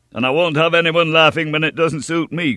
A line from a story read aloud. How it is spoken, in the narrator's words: cried D'Artagnan